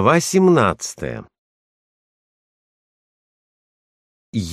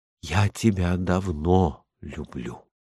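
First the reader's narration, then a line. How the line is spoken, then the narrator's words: Whisper. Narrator (Russian): я слышу шепот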